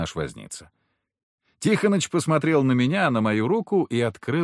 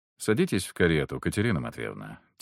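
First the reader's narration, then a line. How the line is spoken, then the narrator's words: Quiet. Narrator (Russian): тихо сказал я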